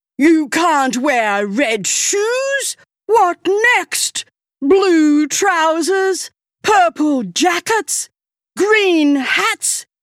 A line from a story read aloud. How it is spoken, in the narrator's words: he spluttered